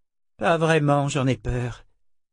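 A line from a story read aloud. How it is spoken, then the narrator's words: Sighing. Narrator (French): soupira Z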